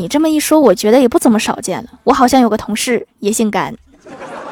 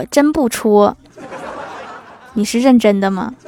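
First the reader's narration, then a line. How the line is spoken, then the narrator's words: Plain. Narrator (Chinese): 蜀山靓丽土豆精说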